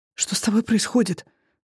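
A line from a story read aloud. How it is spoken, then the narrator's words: Whisper into ear. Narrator (Russian): зашептали чужие губы прямо в ухо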